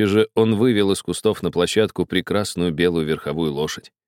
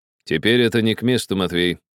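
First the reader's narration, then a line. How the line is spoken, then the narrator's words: Stern interruption. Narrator (Russian): строго прервал кучера Гарри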